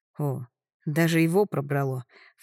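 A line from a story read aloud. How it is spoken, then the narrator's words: Sigh. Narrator (Russian): вздохнула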